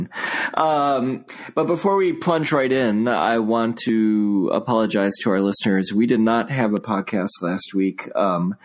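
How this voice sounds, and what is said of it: Sick, unwell-sounding voice. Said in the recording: “As you can hear from my voice, I was very ill.”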